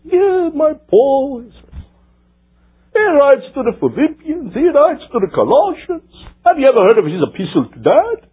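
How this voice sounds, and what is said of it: Put-on Jewish accent. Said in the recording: “in the good old Jewish accent.”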